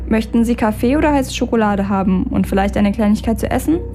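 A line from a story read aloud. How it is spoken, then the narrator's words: Plain question. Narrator (German): fragte er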